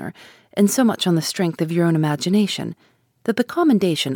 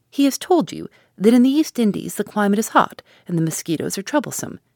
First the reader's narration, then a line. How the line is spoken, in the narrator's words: cried Marianne contemptuously